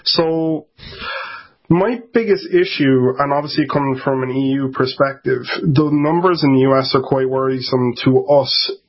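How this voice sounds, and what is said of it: Irish accent. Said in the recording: “If you can't tell by my accent, I'm actually in Ireland.”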